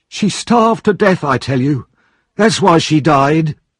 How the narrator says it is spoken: the man cried out

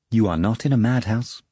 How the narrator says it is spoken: the doctor informed calmly

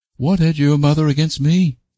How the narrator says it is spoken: cried Janet

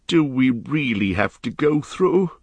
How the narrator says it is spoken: groaned the hobbit

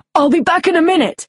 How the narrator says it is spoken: he shouted to Patience

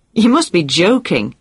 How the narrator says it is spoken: she exclaimed

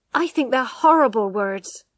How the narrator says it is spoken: cried Tess

